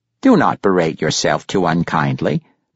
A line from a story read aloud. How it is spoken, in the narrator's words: Pericolo said